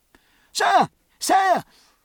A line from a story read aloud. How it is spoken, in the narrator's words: called Captain Aubrey's two remaining lieutenants, gasping